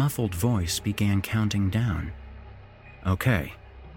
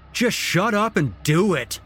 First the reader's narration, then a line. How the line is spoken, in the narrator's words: Oberstrom yelled